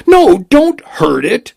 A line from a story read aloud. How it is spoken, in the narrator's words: she cried